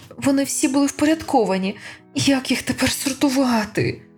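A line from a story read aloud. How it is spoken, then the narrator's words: Moan. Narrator (Ukrainian): простогнала Анатема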